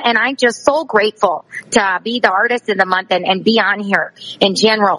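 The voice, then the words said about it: Exaggerated Wisconsin accent. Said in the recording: “how do I do a liner with the accent? ... in my Wisconsin accent ... This is my Wisconsin accent”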